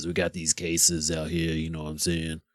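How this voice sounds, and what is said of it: Imitates another person's voice. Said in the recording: “my Fauci impression. It's not the best”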